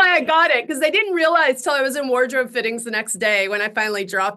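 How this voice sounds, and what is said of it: Usual voice. Nothing is said of it.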